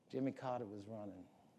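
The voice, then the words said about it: Put-on Georgia accent. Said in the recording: “Sorry, I didn't mean to do that to his Georgia accent.”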